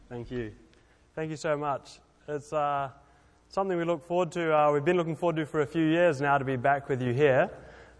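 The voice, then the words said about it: Speaks with a noticeable accent. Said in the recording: “He has a good accent.”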